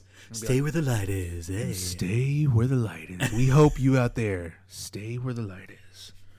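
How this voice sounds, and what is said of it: Exaggerated jazz MC DJ voice. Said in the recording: “You got to go extra jazz MC or whatever, DJ voice.”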